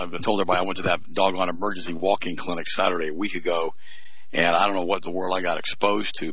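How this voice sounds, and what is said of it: Slightly choppy, strained voice. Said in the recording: “My voice is a little bit choppy right now.”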